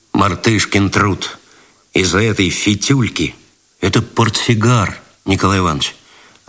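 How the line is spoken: Displeased tone. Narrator (Russian): Свиридов недовольным тоном сказал

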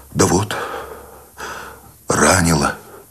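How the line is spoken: Tired exhale. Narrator (Russian): устало выдохнул

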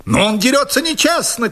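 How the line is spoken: Shouted. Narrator (Russian): крикнул мой противник

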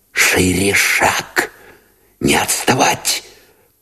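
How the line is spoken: Urgent whisper. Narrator (Russian): поторопил шепотом Новиков

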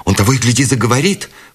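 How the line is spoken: Exclaiming. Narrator (Russian): воскликнула Бет

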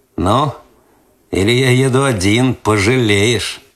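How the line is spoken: Slightly mocking. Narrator (Russian): Последнее слово он сказал чуть насмешливо

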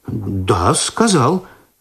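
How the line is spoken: Confused confirmation. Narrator (Russian): растерянно подтвердил Починский

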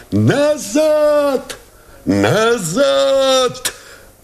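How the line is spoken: Shouting. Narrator (Russian): закричал Новиков

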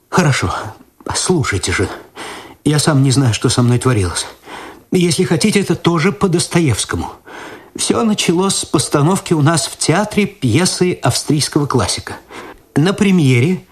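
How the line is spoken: Theatrical sigh, tragic. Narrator (Russian): театрально вздохнув, он сказал

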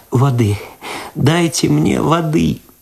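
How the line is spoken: Sobbing aloud, then moaning. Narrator (Russian): В голос зарыдала Люда, простонала

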